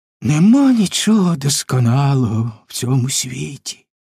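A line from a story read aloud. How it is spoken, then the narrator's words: Sighing. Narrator (Ukrainian): зітхнув лис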